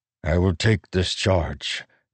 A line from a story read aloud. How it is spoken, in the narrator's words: Nale said softly, with honor